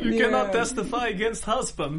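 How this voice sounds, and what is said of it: Put-on Russian accent. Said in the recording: “I tried to do my accent ... I've been doing Russian accent for many years.”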